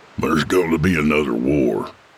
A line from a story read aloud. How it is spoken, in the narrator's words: Jack grumbled darkly